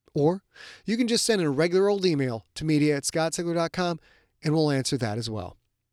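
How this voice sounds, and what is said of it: Slow, thoughtful NPR-style delivery. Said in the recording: “the NPR voice... this slow, thoughtful delivery of the material”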